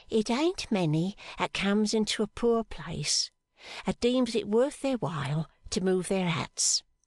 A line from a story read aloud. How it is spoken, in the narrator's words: said Mrs